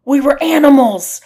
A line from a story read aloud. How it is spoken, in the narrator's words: yelled